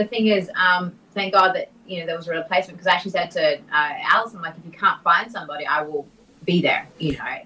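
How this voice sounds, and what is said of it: Australian accent. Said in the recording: “I have an Australian accent.”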